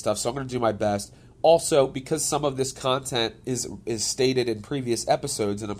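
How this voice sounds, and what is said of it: Congested, scratchy voice. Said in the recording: “I'm a little under the weather, as I typically sound congested. This time it's a little bit more, so my voice is a little scratchy”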